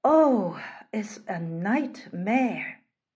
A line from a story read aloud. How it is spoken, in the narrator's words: sighed